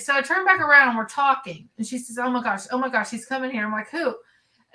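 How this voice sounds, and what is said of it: Kentucky accent. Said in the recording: “he heard my accent and he's like, where are you from? And I'm like, Kentucky.”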